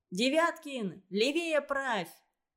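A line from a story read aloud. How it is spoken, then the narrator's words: Shouting. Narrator (Russian): закричал Федя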